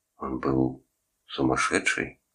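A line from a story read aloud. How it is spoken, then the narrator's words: Whisper. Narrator (Russian): прошептал Торн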